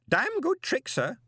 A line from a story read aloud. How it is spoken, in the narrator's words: the old man cackled